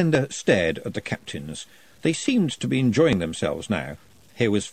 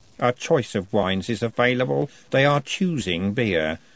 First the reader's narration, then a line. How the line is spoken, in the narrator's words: said Robert coldly